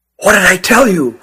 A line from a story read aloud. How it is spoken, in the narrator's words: whispered Nathan